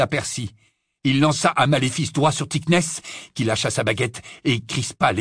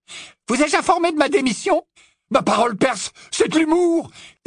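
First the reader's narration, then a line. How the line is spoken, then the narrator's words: Exclaiming. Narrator (French): s'exclama Fred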